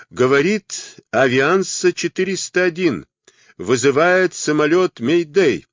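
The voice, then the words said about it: Strong foreign accent. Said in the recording (Russian): “произнес голос по-английски с сильным акцентом”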